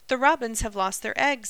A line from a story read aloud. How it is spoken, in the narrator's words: he cried excitedly